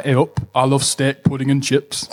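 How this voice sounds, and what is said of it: Put-on northern English accent. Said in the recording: “Blackpool, which is a northern accent. It's like”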